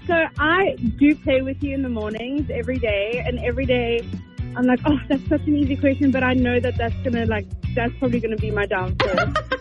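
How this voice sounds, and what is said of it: Noticeable accent. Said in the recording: “I love your accent, by the way.”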